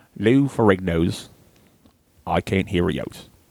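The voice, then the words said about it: Fairly good put-on English accent. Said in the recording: “Let's do a English accent. ... Oh, that's pretty good.”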